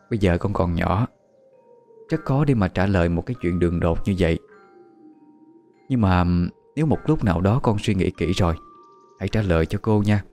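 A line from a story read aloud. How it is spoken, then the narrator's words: Soft laugh, then speaking. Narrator (Vietnamese): cô Hà chỉ khẽ cười rồi mới nói tiếp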